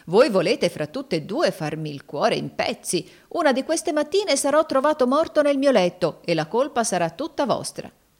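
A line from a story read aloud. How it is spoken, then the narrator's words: Exclaimed. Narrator (Italian): esclamò Adolfo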